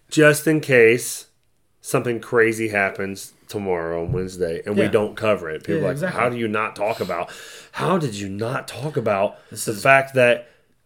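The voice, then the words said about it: Damaged, strained voice. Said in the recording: “My voice is fucked. ... Yeah, it's bad. It is bad.”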